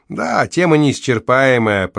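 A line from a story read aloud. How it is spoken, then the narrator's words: Thoughtful. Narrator (Russian): проговорил Джино задумчиво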